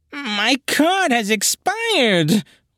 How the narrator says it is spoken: wailed the darkness

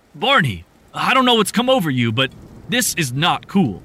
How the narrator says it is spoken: Rick said angrily

